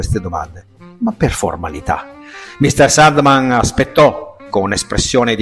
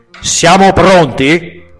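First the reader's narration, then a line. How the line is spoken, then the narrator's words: Loud voice. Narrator (Italian): disse a voce alta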